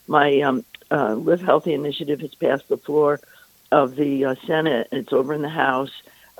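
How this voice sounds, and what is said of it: Hoarse, sore-throated voice. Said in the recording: “I have a sore throat.”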